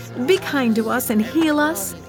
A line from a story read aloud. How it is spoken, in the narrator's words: they begged